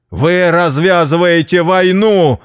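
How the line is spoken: Yelling. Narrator (Russian): заорал я

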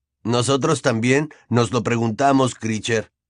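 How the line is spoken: Plain. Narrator (Spanish): dijo Fred

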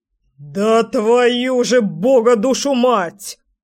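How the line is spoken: Roaring curse. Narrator (Russian): взревел дядя Леша

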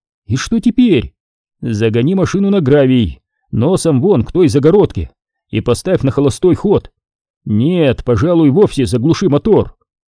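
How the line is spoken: Shouted. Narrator (Russian): крикнула

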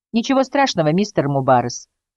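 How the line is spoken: Plain. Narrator (Russian): сказала Джулия

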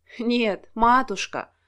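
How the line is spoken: Snorting. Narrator (Russian): фыркнула Лариса

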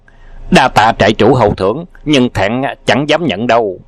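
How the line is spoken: Shouted. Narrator (Vietnamese): Đào Hoa đảo chủ quát

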